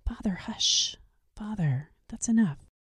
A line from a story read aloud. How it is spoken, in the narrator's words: the schoolboys whispering in confusion